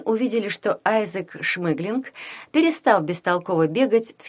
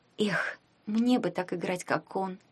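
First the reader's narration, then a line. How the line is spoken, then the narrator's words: Whisper. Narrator (Russian): шепнула Таня Ягуну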